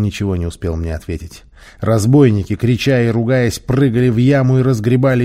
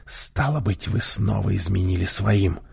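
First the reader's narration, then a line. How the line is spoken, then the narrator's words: Irresistible whisper. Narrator (Russian): Я не удержался и прошептал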